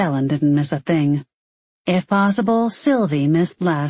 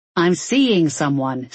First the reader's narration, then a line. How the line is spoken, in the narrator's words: Six snapped